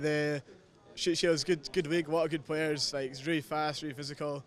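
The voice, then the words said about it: A non-local accent. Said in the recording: “you're the one with the accent, it's not us”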